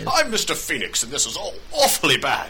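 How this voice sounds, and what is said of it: Put-on English accent. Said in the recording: “Marcus Fenix's dad was in fact an English duke”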